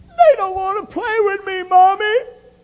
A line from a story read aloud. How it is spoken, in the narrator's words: they're whining to mommy